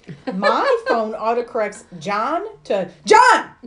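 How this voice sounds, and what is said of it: Yelling. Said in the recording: “Why are you yelling at me?”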